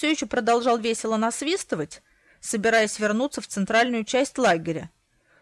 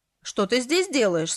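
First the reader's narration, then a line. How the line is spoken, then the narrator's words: Asking, whistling abruptly stopped. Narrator (Russian): спросил, резко оборвав свист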